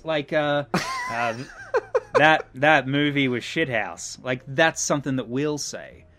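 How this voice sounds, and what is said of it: Noticeably broader regional accent. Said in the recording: “my accent got a little broader with that example”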